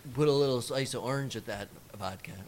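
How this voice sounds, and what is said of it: Put-on Spanish accent. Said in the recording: “Was that a Spanish accent? ... Yes. ... From the south of Spain.”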